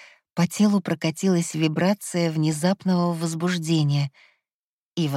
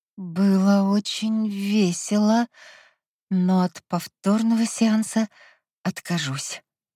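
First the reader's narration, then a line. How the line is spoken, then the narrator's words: Hoarse, smiling reply. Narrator (Russian): хрипло, но с улыбкой ответила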